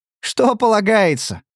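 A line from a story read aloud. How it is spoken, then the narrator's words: Ringing laughter. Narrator (Russian): звонко расхохоталась Кларисса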